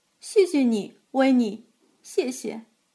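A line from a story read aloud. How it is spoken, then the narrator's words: Choked up. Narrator (Chinese): 哽咽着说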